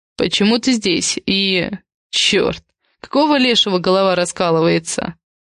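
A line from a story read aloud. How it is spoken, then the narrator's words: Hissing in pain. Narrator (Russian): Он зашипел от боли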